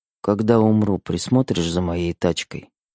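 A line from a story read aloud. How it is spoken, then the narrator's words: Sudden muffled mutter. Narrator (Russian): Вдруг пробормотал Фуллер в мою макушку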